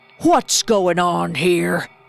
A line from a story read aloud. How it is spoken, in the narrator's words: growled the farmer